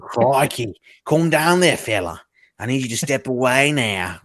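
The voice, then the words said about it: Put-on Australian accent. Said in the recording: “your Australian accent is so good.”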